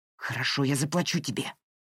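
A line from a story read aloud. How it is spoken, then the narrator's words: Hiss. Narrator (Russian): прошипел Пол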